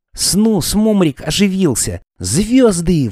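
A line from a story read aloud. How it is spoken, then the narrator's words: Exclamation. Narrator (Russian): воскликнул он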